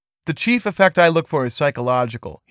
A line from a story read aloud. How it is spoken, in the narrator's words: he said